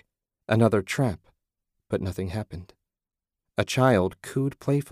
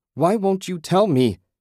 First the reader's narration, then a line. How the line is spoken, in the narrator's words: She shouted